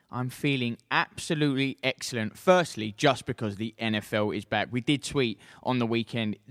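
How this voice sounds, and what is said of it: Usual voice. Nothing is said of it.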